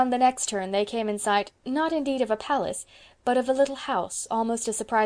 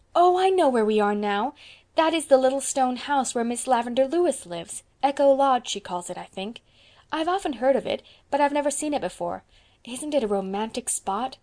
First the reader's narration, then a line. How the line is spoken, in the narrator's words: stopped short in rapture